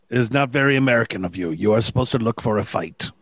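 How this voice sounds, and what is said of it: Put-on French accent drifting Spanish. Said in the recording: “I do not know what accent this has become... France by way of Spain”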